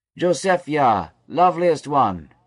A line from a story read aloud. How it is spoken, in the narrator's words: Bilhah cried